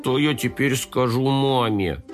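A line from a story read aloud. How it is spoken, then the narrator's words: Hopeless moan. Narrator (Russian): Компот обреченно простонал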